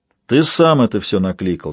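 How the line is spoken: Plain. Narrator (Russian): сказал он

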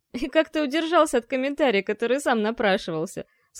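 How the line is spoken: Groaning through laughter. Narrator (Russian): сквозь смех простонал эльф

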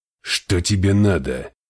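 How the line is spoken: Growl. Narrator (Russian): рыкнул Ортонс

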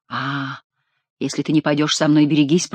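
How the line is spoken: Whisper. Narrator (Russian): прошептал он

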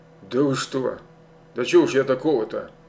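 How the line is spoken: Mumbling. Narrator (Russian): пробормотал он

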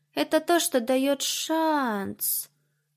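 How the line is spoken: Drawling. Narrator (Russian): Протянула Фаина

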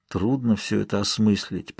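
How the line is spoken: Mumbled. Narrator (Russian): пробормотал я

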